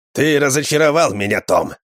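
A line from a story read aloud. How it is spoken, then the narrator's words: Harsh angry voice. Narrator (Russian): Жестким злым голосом заговорил он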